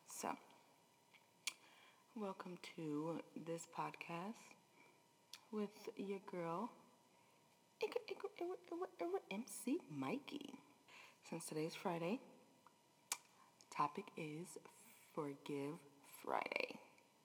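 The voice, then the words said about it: Low, deep early-morning voice. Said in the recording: “I promise I'm not trying to have a call girl voice. ... I feel like I sound like a dude, honestly ... I'm really trying to be respectful”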